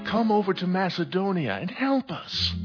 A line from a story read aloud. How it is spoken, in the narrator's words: A man of Macedonia pleaded with him